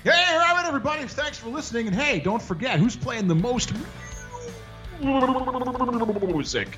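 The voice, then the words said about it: Announcer-style radio DJ voice. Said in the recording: “Do it in that radio voice, quick.”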